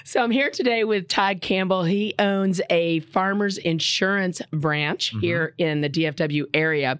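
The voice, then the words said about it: Smoky, hoarse voice. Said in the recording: “apologize for my voice ... Smoky. ... at least I have one. Yesterday, it didn't exist.”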